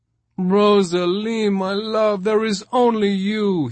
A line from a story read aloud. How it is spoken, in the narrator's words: he moaned